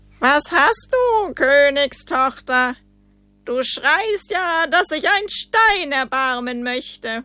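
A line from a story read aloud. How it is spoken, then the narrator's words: Calling out. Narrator (German): rief ihr jemand zu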